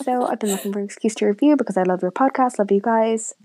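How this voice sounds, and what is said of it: Irish accent. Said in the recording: “who's from Ireland ... here in Ireland. Another accent for you to try”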